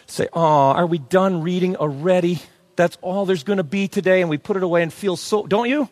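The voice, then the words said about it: Sarcastic, mock-mournful tone. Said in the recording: “I'm being sarcastic”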